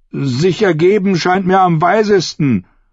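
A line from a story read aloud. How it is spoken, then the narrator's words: Calling out. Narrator (German): rief er Ariane zu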